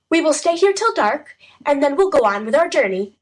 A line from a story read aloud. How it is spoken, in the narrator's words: said Henry cheerfully